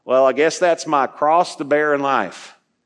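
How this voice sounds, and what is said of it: Put-on Southern accent. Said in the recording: “I don't know why the Southern accent ... Maybe they were all Southerners.”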